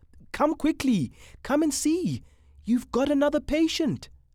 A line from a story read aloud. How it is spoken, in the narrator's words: He called out